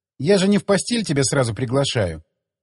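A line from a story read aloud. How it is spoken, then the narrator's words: Joyless smiling tone. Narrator (Russian): Как-то не слишком весело улыбнулась она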